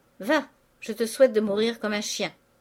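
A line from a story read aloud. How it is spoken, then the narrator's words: Exclaiming. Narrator (French): s'écria madame Vauquet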